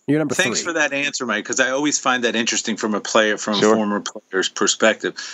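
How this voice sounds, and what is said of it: Usual voice. Nothing is said of it.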